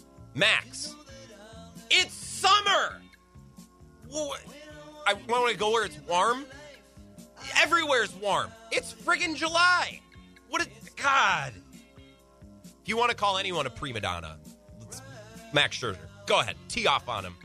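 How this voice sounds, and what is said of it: Raised, loud ranting voice. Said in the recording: “Sorry, I raised my voice.”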